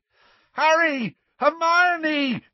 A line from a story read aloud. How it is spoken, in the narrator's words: yelled Ron, looking quite beside himself